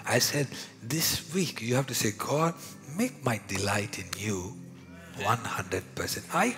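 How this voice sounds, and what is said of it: Indian-accented English. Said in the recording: “my Indian accent”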